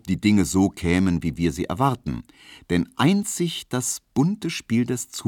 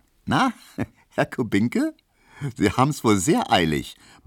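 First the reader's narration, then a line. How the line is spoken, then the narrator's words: Said laughing. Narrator (German): meinte die und lachte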